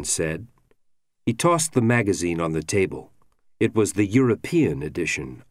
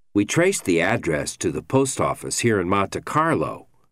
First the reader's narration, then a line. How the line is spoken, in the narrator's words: Argrow said